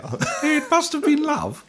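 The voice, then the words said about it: Half-hearted Queen Elizabeth II impression. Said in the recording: “my Lizzie impression ... That was a non-committal Queen Elizabeth II impression.”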